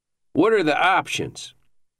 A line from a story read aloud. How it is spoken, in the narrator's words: asked Spicer